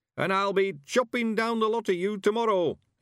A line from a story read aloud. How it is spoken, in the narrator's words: he shouted triumphantly